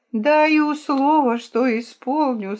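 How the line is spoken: Goat's groan. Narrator (Russian): стонал козел

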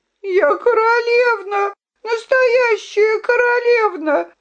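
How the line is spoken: Sobbing. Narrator (Russian): рыдала Виолинка

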